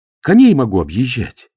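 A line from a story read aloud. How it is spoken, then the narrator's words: Joyful exclamation. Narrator (Russian): воскликнул он радостно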